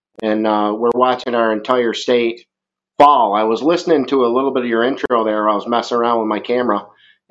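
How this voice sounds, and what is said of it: Strong Vermont New England accent. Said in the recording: “I've got a very solid Vermont accent ... That's a redneck woodchuck ... I get picked out all over the world for it”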